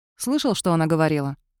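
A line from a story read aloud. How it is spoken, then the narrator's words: Plain. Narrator (Russian): спросил Кайлин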